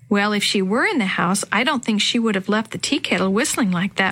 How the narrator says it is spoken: Maria said

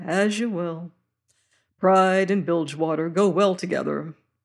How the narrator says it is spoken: he sighed

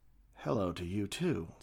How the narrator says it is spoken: said Starwood, her voice as smooth as the satin sheet she laid on

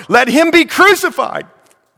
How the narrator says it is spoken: They cried out the more

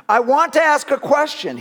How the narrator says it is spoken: yelled angrily again

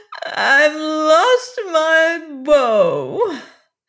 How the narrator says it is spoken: wailed

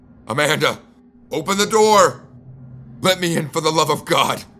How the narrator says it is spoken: I shouted

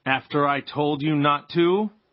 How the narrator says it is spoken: Pa said, in a more terrible voice

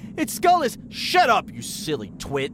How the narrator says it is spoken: Dad snapped

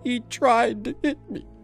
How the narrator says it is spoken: she sobbed

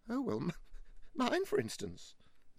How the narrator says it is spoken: said Mavis with a feeble laugh

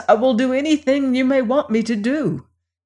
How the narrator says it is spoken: pleaded the prince with chattering teeth

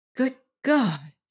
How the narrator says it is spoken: muttered over and over again

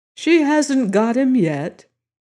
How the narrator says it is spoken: said Madame Story cheerfully

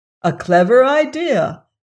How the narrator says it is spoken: exclaimed the Scarecrow

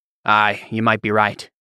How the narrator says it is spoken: Riddell said

